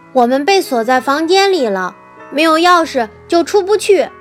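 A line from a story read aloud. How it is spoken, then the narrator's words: Shouting. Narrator (Chinese): 乔叫道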